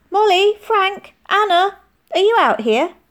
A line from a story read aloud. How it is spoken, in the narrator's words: Auntie Rose's voice called